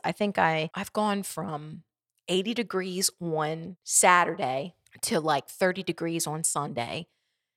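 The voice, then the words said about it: Congested, nasal, rough voice. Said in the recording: “please forgive my voice... my throat is, I'm fine, but the nasal passages are figuring out the intense climate shift”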